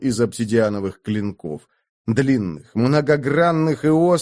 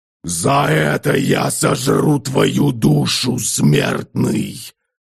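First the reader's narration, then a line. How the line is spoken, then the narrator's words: Reality-shaking growl. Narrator (Russian): зарычал Двуликий, и от этого его голоса задрожала сама реальность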